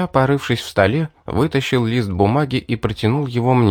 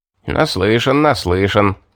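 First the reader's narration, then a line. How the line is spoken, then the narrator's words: Chuckling. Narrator (Russian): хохотнул судья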